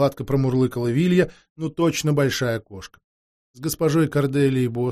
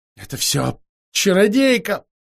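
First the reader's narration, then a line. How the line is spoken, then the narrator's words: Howling. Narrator (Russian): взвыла Морриган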